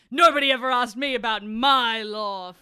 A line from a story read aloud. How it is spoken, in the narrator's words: FireEyes roared